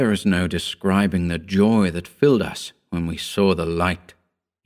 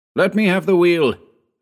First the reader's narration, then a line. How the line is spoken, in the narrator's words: I shouted